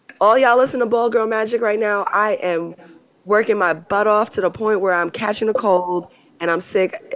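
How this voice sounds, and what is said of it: Hoarse, raspy voice. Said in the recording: “I already apologize for my hoarse voice ... my voice is really struggling right now ... the raspiness”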